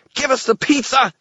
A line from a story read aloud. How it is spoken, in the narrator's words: Toot shouted